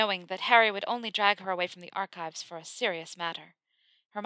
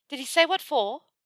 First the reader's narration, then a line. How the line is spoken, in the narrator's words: Hermione panted as she hurried to keep up